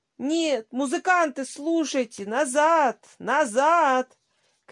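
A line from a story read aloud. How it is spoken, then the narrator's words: Breathless shouting. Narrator (Russian): кричал он, задыхаясь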